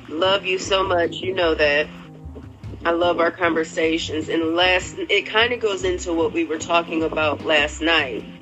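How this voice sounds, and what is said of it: Voice rough from a cold. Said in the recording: “Excuse my voice. I got a little cold coming in”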